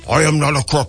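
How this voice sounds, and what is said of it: Richard Nixon impression. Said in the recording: “my Nixon impression ... my impressions weren't the best”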